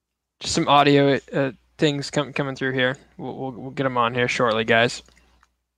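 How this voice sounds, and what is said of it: Usual voice. Nothing is said of it.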